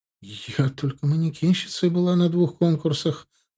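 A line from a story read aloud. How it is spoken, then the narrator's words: Confused answer. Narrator (Russian): Растерянно ответила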